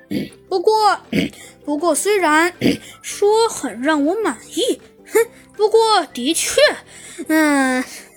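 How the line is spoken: Smiling. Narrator (Chinese): 猴子警长笑了笑，说道

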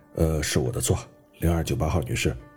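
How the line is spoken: Displeased sigh. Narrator (Chinese): 大胡子不快地叹了一口气说

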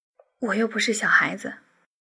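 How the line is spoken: Shy, quiet retort. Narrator (Chinese): 李星宇微羞的小声的反驳道

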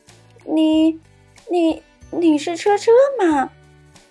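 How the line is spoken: Just stopped crying. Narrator (Chinese): 小恐龙不哭了

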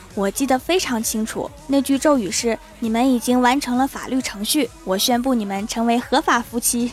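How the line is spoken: Sighing. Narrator (Chinese): 郭大侠叹了一口气说

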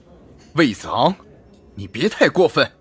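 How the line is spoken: Angry. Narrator (Chinese): 尤文轩怒道

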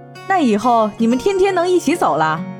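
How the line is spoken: Laughing loudly. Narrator (Chinese): 楚萧听了大笑

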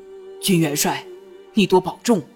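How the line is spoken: Lowered voice. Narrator (Chinese): 不由得压低了声音

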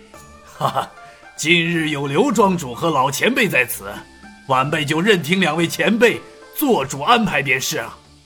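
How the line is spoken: Apologetic laugh. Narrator (Chinese): 周之同歉意的笑了笑道

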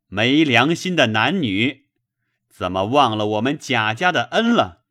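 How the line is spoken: Resentful drunken shout. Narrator (Chinese): 包勇心里怀恨，趁了酒兴，便大声的道

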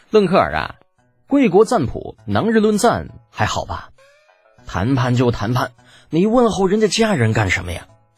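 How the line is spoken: Smiling question. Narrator (Chinese): 李浩笑着问道

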